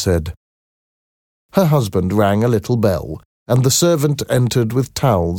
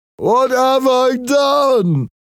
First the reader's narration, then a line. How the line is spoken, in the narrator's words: cried